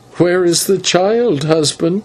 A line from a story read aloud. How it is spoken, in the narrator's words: then began to laugh, ... she said